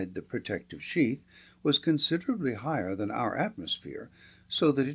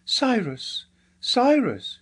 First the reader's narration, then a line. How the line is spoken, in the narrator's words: she cried